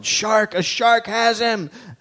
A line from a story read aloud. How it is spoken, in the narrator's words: someone yelled